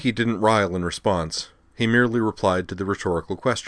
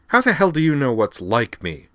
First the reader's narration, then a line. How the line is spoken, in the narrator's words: asked angrily